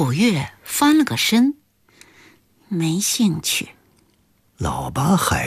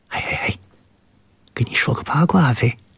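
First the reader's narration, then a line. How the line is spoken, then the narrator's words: Whispering. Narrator (Chinese): 毛俊对胡古月小声地说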